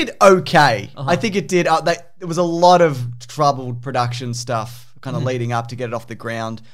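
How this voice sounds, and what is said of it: Usual voice. Nothing is said of it.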